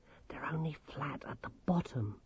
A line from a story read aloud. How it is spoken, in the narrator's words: whispered Grimmer